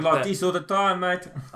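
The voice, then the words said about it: Put-on South African accent. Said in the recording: “I just wanted to go into full South African mode then and try the accent out. And it feels quite good. But then again, I probably absolutely fucking butchered it”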